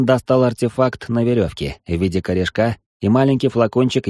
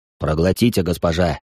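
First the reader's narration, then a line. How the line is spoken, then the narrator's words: Mumbled. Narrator (Russian): бормочет капитан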